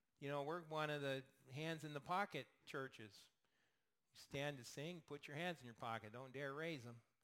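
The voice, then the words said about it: Sarcastic tone. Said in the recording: “I'm being sarcastic, by the way”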